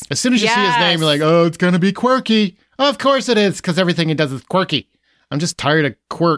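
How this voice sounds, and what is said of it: Put-on quirky affected voice. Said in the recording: “gay man accent? ... It was quirk accent. It was a quirky accent. ... It's an affect, not an accent.”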